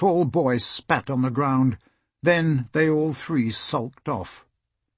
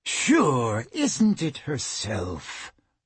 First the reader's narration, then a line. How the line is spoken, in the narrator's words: the man purred